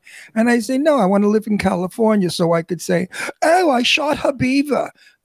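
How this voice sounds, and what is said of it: New York accent. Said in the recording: “I have a New York accent, which you hear. And people say to me, oh, you have such a New York accent.”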